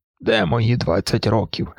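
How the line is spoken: Wistful, sad. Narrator (Ukrainian): сказав Моргер, сумно посміхаючись

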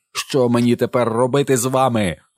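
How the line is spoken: Barked. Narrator (Ukrainian): гаркнув

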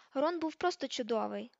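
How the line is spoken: Gentle. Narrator (Ukrainian): лагідно сказала Тонкс

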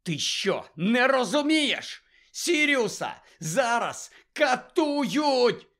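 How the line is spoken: Shouted. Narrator (Ukrainian): закричав Гаррі

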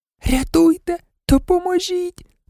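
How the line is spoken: Desperate whisper. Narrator (Ukrainian): У відчаї шепотіла Герміона

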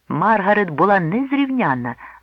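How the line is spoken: Cheerful exclamation. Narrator (Ukrainian): весело вигукнув Джонатан

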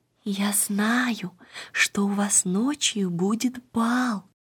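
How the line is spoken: Little girl whispering. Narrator (Russian): маленькая Ида шепнула им

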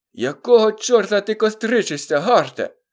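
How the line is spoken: Hoarse distant loudspeaker voice. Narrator (Ukrainian): захрипів у гучномовці здалений голос Сінха

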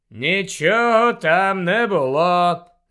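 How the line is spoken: Bored reply. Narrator (Ukrainian): знудженим голосом відповів Снейп

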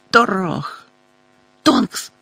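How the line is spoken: Irritated exclamation. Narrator (Ukrainian): роздратовано вигукнула місіс Візлі

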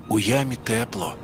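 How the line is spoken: Whisper. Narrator (Ukrainian): прошепотів вовкові Андрійко

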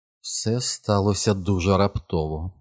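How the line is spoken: Thoughtful mutter to self. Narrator (Ukrainian): задумливо пробурмотіла про себе Джесика

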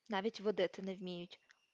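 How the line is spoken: Quiet indignant mutter. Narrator (Ukrainian): пробурмотів тихенько й обурено

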